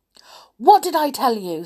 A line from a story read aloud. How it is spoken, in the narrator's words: said Binky angrily